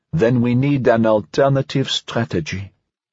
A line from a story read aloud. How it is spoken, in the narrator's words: Aumagnier answered calmly